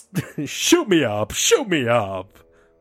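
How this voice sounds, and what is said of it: Cowardly Lion character voice impression. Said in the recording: “That's actually not bad. Cowardly lion voices. ... It's a bad impression. ... Started off good”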